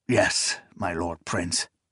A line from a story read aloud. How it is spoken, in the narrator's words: Zynemus said solemnly